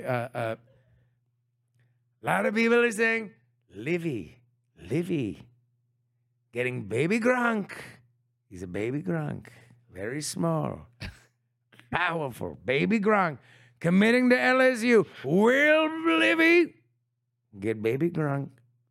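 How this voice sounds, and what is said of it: Imitates another person's voice. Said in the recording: “Can you do it in a Trump voice for me”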